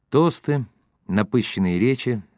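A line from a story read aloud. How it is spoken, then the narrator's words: Tired. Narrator (Russian): сказал Иоганыч устало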